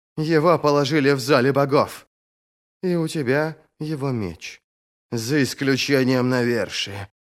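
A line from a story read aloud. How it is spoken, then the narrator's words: Grumbling, holding breath. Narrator (Russian): проворчала, стараясь не дышать носом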